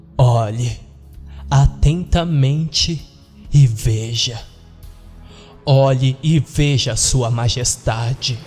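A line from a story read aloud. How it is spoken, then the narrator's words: Slow speech. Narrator (Portuguese): Jeffrey disse lentamente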